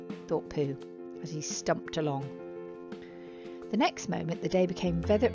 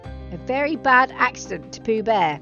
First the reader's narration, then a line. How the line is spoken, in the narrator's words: he said loudly